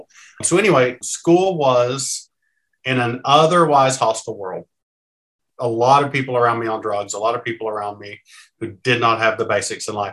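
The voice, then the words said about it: Southern Appalachian American accent. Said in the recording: “You're hearing just regular old Southern, but like Appalachian accents are beautiful ... I grew up in Eastern Kentucky. So that's sort of the Appalachian mountainy part”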